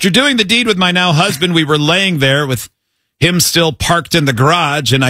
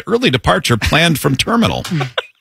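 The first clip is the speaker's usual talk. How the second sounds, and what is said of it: Flight attendant announcement voice. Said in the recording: “my best impression of a flight attendant”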